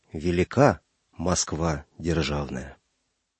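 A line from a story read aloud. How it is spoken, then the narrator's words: Solemn. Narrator (Russian): Звягин торжественно сказал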